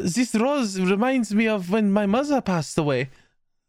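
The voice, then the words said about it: Put-on German accent character voice. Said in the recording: “Siegfried's fucking German accent is so insufferable”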